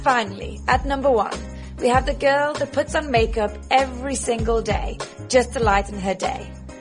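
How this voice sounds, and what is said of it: Posh English accent. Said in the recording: “She always adds a little bit of sophistication. It's the English accent. ... it makes us sound so prim and proper. ... So posh.”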